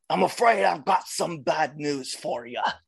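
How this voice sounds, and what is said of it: Put-on British accent. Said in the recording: “Wade Barrett was like the whole inspiration behind why I even started to try a British accent”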